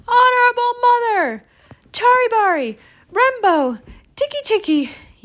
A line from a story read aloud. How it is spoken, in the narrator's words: he gasped